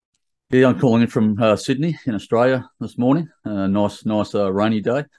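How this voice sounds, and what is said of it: Accent different from host's. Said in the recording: “You might detect a slightly different accent, at least in contrast of his versus mine.”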